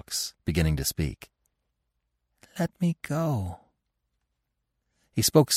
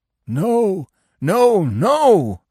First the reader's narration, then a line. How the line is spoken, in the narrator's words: the dog howled